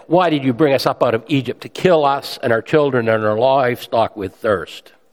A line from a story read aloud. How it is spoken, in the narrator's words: the people grumbled against Moses and said